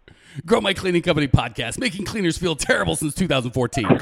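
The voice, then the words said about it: Exaggerated cheesy radio announcer voice. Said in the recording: “my best terrible radio voice”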